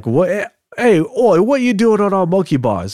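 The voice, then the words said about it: Poor put-on Australian accent. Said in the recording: “It's my crappy Australian accent there.”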